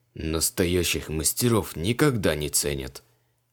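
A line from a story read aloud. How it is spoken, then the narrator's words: Muffled grumbling. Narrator (Russian): приглушенно бурчал он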